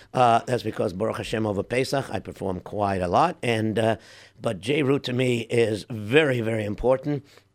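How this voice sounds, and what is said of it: Hoarse voice. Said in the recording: “my voice sounds a little bit hoarse ... my voice is a little bit shot”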